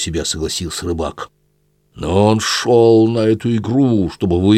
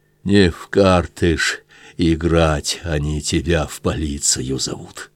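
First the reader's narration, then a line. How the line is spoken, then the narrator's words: Suddenly dejected voice. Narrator (Russian): Минуту он мучительно кашлял, потом шумно дышал, затем сказал вдруг упавшим голосом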